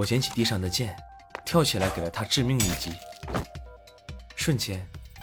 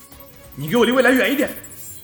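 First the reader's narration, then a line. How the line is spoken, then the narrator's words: Fierce full-force shout. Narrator (Chinese): 我用尽全力恶狠狠地大吼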